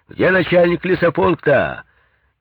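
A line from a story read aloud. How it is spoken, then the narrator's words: Shouted. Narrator (Russian): Кто-то крикнул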